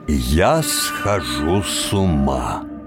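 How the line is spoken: Slow, almost solemn. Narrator (Russian): сказал медленно, почти торжественно

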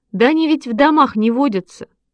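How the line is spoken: Laughing. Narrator (Russian): засмеялся Шишкин

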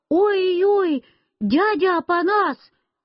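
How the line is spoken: Frightened shout. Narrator (Russian): Я испугался и закричал

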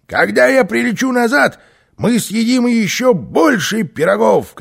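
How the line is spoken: Shouting. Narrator (Russian): крикнул Карлсон

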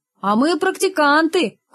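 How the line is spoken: Group laughing reply. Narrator (Russian): хохотом ответили практиканты

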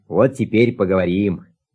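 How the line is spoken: Plain. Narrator (Russian): сказал Аист

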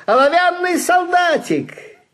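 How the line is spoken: Loud exclamation. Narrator (Russian): кто-то громко воскликнул

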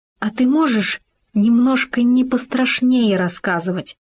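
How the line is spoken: Pleading small animal. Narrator (Russian): взмолился суслик

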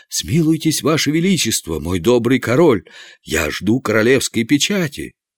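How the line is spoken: Trembling exclamation. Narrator (Russian): Канцлер, дрожа всем телом, воскликнул

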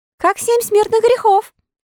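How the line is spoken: Laughing. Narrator (Russian): сказал Пиноккио, расхохотавшись

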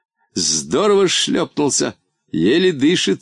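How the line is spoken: Plain. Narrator (Russian): сказал он

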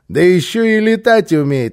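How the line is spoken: Mocking. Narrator (Russian): насмешливо подхватил

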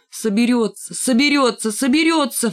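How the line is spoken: Sudden shout. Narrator (Russian): вдруг закричал Рыжий

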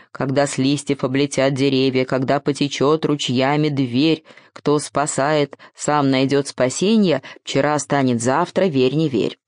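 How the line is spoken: Grumbling. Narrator (Russian): проворчал

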